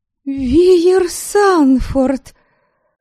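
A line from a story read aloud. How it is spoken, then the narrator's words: Surprised recognizing exclamation. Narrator (Russian): воскликнула я, рассмотрев лицо ректора Академии и хорошего знакомого моего отца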